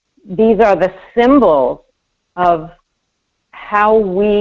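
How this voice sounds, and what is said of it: Usual voice. Nothing is said of it.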